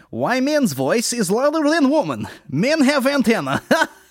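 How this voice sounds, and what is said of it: Put-on Russian accent. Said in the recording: “read this out in like a Russian accent”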